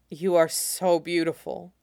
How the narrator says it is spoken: he mutters

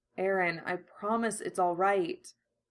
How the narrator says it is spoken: Armin murmurs the words, and something in his tone must strike Aaron

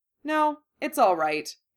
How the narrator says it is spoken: Harry said firmly

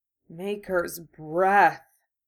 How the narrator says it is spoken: wheezed

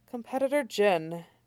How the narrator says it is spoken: he says, sighing

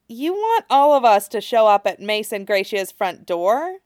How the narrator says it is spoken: He asks dryly

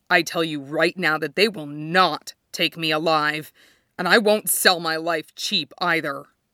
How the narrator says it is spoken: rasped

